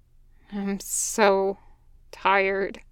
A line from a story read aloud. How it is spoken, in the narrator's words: Gunny muttered